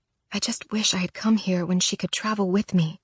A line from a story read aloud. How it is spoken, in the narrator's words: I whisper